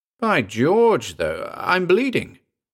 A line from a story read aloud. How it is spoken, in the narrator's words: he exclaimed